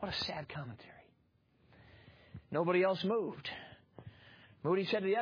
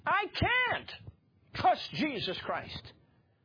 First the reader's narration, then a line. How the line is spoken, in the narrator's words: one of those atheists yelled out